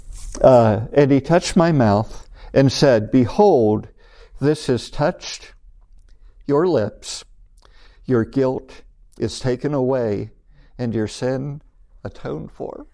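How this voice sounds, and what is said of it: Choked-up, emotional voice. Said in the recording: “I got a little choked up over some of this.”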